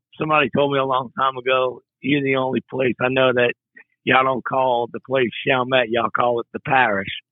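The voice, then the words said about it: Louisiana accent that sounds Brooklyn-like. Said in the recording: “y'all can hear ... accent. It's one of the few places, really few places in South Louisiana where you just maybe think they're from Brooklyn”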